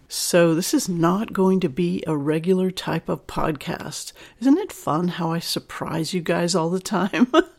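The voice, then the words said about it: Slightly sick, cold-affected voice. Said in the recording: “you can hear my voice is a little bit sick. I'm getting over a cold”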